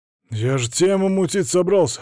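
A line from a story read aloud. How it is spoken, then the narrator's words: Indignant exclamation. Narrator (Russian): возмущенно воскликнул он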